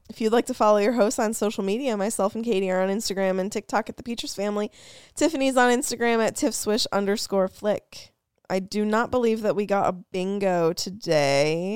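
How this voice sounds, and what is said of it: Reading very fast. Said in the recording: “why are you reading that so fast?”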